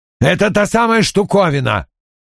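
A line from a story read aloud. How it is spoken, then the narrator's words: Barked while moving. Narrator (Russian): рявкнул он мне на ходу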